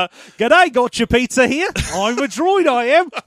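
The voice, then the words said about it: Put-on Australian accent. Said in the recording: “an unplaceable accent ... Australia”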